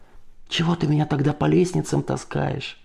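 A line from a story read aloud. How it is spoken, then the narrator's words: Quieter addition. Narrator (Russian): добавил бормолеющий тише, когда эхо наконец стихло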